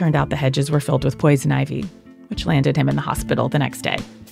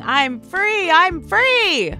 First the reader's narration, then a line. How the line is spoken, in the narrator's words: yelling